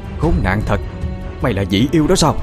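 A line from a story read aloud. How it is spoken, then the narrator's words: Harsh, woman. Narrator (Vietnamese): Ả gằn giọng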